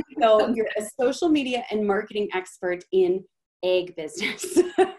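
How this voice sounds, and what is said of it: Minnesotan accent. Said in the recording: “I'm going to say it in my Minnesotan accent and hopefully people can understand”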